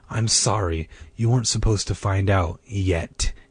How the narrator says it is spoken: he said, his voice floating low and heavy on the stifling night air

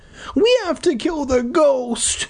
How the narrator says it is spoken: the little guy whimpered

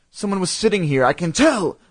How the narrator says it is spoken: I exclaimed

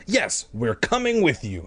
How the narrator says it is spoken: Sari exclaimed

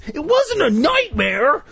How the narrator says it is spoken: Jay cried shrilly

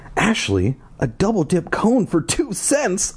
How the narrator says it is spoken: I cried in surprise

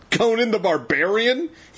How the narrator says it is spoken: he cried, laughing

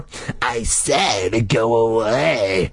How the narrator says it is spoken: Carly Beth snarled in a voice so deep, so terrifying that it frightened even her

